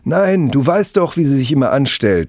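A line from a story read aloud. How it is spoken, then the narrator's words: Boy shouting back. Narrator (German): schreit der Junge zurück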